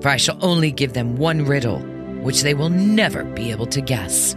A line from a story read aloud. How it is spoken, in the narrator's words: answered the dragon scornfully